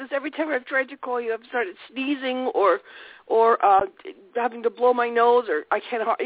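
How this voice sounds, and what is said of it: Raspy voice from a cold. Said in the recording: “I have such a cold ... my voice is raspy”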